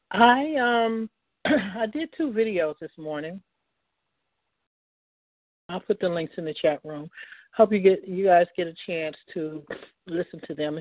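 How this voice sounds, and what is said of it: Sounds like catching a cold. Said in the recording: “I'm catching a cold. ... So if my voice sounds funny, that's why.”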